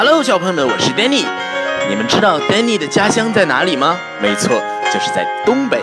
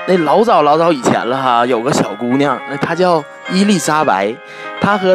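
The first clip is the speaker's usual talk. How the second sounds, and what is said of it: Northeastern Chinese dialect storytelling. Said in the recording (Chinese): “用东北话来给你们讲一个非常非常经典的故事——小红帽 ... 东北话版的小红帽”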